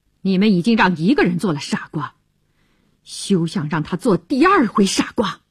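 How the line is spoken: Cold. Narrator (Chinese): 乔治对他冷冷地说

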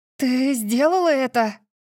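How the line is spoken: Breathless. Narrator (Russian): выдохнула я

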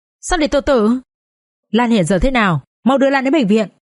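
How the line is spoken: Shouting into phone. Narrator (Vietnamese): Hùng hét vào trong điện thoại

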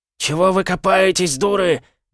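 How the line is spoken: Old man yelling hoarsely. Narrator (Russian): заорал старик, срывая голос

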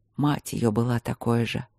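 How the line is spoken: Quiet. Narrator (Russian): тихо проговорил Игорь

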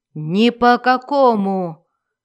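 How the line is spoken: Roared. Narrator (Russian): взревел Эрту

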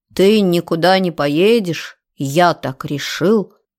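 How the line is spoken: Mocking low voice. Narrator (Russian): передразнила его низким голосом

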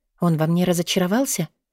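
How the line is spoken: Grumbling inner voice. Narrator (Russian): Внутренний голос буркнул

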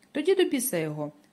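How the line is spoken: Joyful. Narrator (Ukrainian): радісно промовляє Атена

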